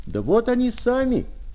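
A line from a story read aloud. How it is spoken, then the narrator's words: Loud shout. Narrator (Russian): крикнул громкий голос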